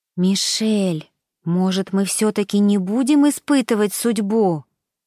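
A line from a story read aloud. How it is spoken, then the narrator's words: Pleading tone. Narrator (Russian): умоляющим тоном произнесла Покровская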